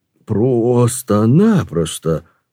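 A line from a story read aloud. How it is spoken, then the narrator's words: Slow drawl. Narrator (Russian): наконец протянул он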